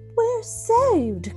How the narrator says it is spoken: cried Mrs

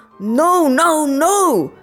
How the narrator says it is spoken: shouts our teacher

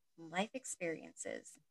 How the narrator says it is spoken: she whispered to herself

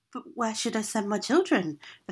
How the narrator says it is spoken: the father asked

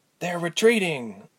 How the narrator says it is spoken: Ilse breathed

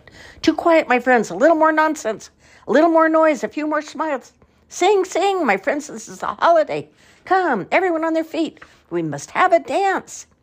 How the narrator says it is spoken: shouted

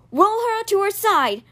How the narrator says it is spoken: Miss Morning shouted

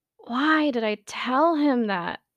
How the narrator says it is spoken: He groaned

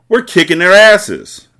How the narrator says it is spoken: Jalil shouted

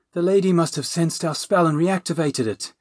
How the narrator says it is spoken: the dragon moaned

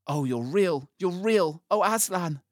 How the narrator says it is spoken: cried Lucy

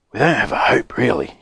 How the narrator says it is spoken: he whispered, giggling a bit

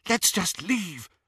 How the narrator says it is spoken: Hermione whispered

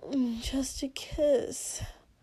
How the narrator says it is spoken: Shoto squirmed, whined a little pitifully, and then hissed

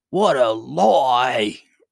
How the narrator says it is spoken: roared the queen in a rage

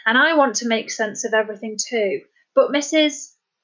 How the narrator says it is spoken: faltered as he tried to remember the social worker's name

